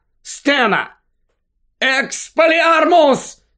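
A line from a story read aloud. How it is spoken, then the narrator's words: Shout. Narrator (Ukrainian): закричав Гаррі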